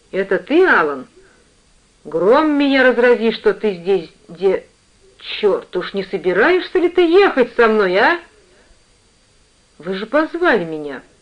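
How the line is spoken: Uncertain, suddenly frightened reply. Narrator (Russian): Неуверенно ответил я, вдруг испугавшись

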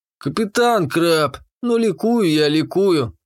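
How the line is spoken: Sad mock rejoicing. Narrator (Russian): печально поликовал он

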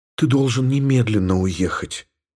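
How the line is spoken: Whispered. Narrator (Russian): прошептала Елена

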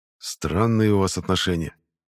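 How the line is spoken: Quiet. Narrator (Russian): тихо сказал Дагор

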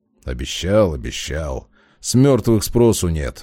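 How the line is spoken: Grumbling. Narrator (Russian): проворчал Демьян

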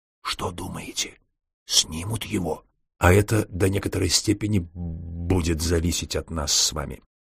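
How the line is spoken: Terrible low whisper. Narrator (Russian): понизив голос до страшного шепота

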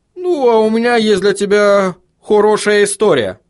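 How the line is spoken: Gloomy dwarf announcement. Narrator (Russian): мрачно известил гном

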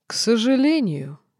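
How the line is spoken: Laughed angrily. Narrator (Russian): Динар, не скрывая злости, рассмеялся

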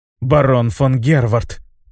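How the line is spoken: Female, through gritted teeth. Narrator (Russian): процедила сквозь зубы герцогиня

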